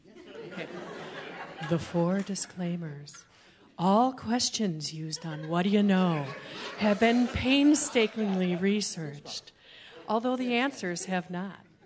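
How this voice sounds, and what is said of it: Sensual radio announcer voice. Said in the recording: “my sensual radio voice”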